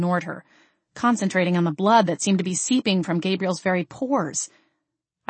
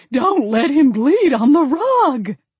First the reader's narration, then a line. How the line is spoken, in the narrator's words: Grandma Ruthie's tinny, disembodied voice fluttered at my left ear, screeching